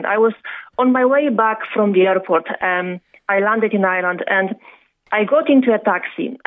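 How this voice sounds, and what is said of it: Strong Eastern European accent. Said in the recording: “I still have very strong Eastern European accent”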